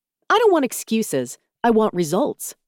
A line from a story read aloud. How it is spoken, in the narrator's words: she snapped